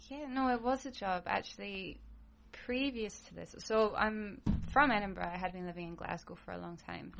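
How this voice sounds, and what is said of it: Slight Scottish accent. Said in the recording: “you sound like you have a little bit of an accent. Are you Scottish? ... Sounds Scottish.”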